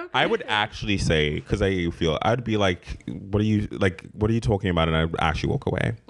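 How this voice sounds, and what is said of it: South African accent. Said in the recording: “I love your, your accent. Say? Is that from New York? ... I'm from South Africa. ... That's British, exotic.”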